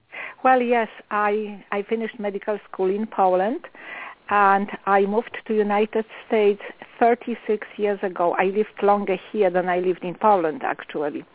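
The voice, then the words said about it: Foreign accent, not American-born. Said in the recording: “I sense an accent, and I know that you're not American-born.”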